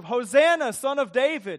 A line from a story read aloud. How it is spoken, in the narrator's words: accompanied with shouts of